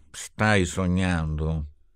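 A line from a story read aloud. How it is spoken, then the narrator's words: Murmured. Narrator (Italian): mormorò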